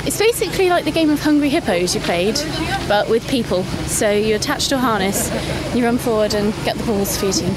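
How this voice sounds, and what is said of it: Out of breath, panting speech. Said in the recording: “you're very out of breath.”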